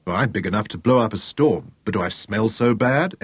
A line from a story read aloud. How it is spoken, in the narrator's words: Ella protested, chuckling